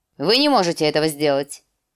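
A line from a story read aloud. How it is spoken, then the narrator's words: Curt, clipped. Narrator (Russian): отрывисто объявил лорд Уолдер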